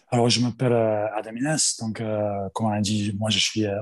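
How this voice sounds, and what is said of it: Australian accent speaking French. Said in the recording (French): “un accent étranger ... accent australien”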